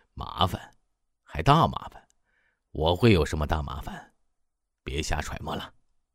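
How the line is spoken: Laughing. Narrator (Chinese): 刘冲天仍在笑

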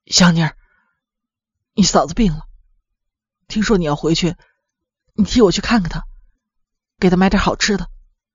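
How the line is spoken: Hoarse voice. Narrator (Chinese): 黑子嘶哑着嗓子对香妮说

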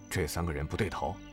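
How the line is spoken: Low voice. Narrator (Chinese): 向风低声对项羽道

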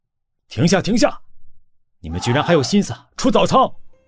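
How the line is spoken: Angry loud rebuke. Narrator (Chinese): 郑浩 他很生气 大声呵斥

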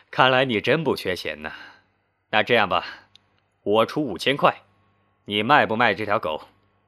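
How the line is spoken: Loud laughter. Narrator (Chinese): 男人堵得放声大笑起来

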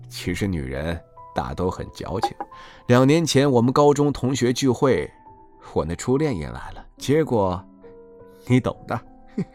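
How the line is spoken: Sly chuckle, low mysterious voice. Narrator (Chinese): 他嘿嘿怪笑了几声，故作神秘的低声对欧奇树说道

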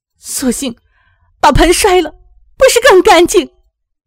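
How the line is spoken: Angry, on the verge of tears. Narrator (Chinese): 阿玉更是气不打一处来，带着哭腔说

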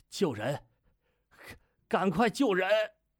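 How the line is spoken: Breathless, halting. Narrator (Chinese): 大口喘气，断断续续地说

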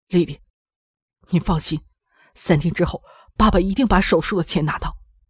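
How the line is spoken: Determined, teeth gritted. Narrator (Chinese): 王海咬咬牙对他说

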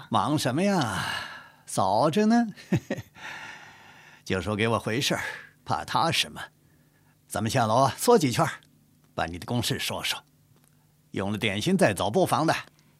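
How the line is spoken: Smiling, laughing. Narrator (Chinese): 高恒笑着说

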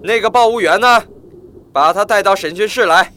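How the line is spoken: Loud question. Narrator (Chinese): 池田大声地问手下人

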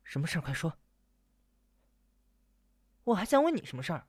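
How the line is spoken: Low, uneasy voice. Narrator (Chinese): 李莺莺不放心地压低声音

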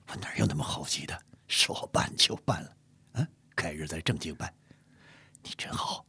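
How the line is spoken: Soft, delighted. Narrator (Chinese): 乾隆喜得小声说

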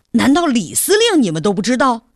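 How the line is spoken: Shocked, somewhat angry. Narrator (Chinese): 他的表情不仅吃惊，而且有些愤怒

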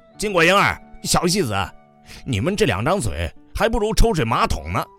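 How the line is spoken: Furious roar. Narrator (Chinese): 气得火在我的五脏六腑当中运行奔突，暴跳如雷，大吼一声

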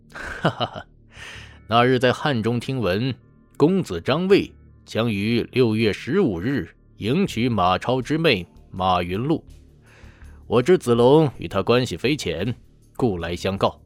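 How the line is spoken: Laughing. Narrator (Chinese): 童飞笑道

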